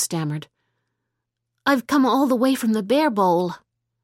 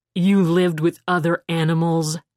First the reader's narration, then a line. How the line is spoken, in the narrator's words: he growled disbelievingly